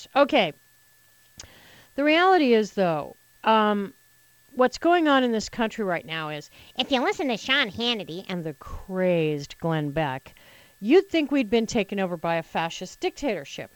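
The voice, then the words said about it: Slightly hoarse voice. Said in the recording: “forgive me a little morning hoarseness. I forgot to put on my humidifier last night, and I'm a little hoarse.”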